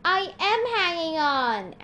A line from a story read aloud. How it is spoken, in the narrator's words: Annabeth yelled